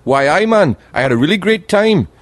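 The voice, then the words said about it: Attempted Geordie accent. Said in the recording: “I can't do the accent. They've got the best accent ever. The people from Newcastle, Geordie ... They speak like that. They're just on the border of Scotland. I can't do the accent.”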